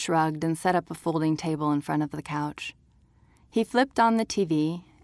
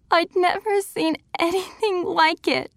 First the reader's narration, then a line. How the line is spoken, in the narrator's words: sobbed